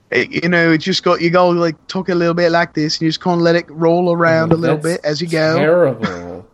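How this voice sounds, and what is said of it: Put-on Australian accent, judged poor. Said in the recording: “I think my Australian accent is much stronger than my English accent ... That's terrible.”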